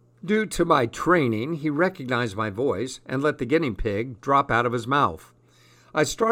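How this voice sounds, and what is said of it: Usual voice. Nothing is said of it.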